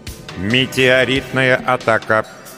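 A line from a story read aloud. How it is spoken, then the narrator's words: Synthetic announcing voice. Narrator (Russian): синтетическим голосом вещала система безопасности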